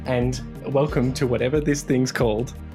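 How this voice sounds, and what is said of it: Exaggerated, slightly obnoxious podcast-host voice. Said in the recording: “This is my podcast voice ... It's a lot like my real voice, just a little bit more obnoxious. just dial up the obnoxiousness a bit”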